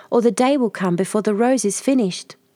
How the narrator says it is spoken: cried the tree

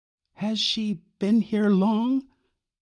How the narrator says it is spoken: Y asked timidly

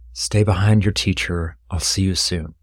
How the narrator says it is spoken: whispered

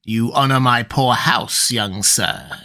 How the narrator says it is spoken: he laughed coolly

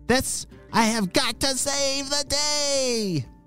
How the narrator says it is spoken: shouted Paulio

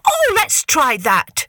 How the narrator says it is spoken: cried Koala

